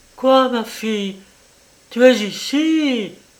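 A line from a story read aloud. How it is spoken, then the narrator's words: Exclaimed. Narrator (French): s'écria Madame de Miran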